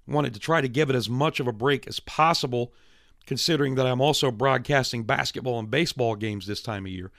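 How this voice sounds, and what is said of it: Strained voice, partly lost. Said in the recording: “lose my voice ... Invariably, I have to go on a steroid treatment to get my voice back ... No, they are not enhancing my performance, as you can tell ... because of the way my voice is”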